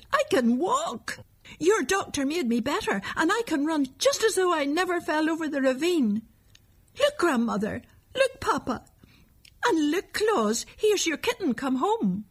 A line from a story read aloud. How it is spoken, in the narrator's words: he shouted